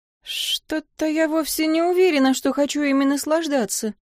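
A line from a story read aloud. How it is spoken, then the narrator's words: Trembling mutter. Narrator (Russian): дрожащим голосом пробормотала я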